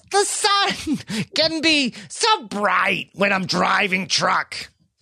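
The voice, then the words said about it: High-pitched impersonation. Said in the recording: “I hear a lot of progress in the impersonation. I think you've got in the high-pitched nature really down now.”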